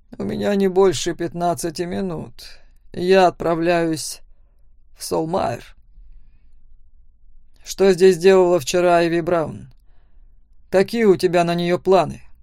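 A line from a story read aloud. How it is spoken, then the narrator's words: Growling. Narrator (Russian): зарычал Макс на отца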